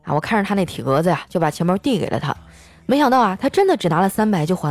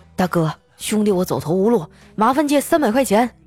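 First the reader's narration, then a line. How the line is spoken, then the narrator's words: Menacing robber. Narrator (Chinese): 一个人拿了一把匕首抵在我的腰上，对我说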